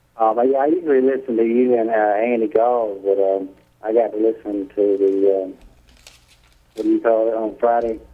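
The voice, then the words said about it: Mild South Carolina accent. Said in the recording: “a little South Carolina accent”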